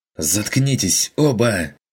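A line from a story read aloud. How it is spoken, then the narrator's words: Fierce angry snap. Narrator (Russian): прикрикнул Бруно с давно неслышимым от него озлоблением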